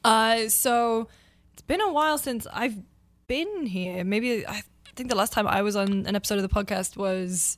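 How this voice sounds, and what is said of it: Hoarse, fading voice. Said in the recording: “Ooh, losing my voice, apparently.”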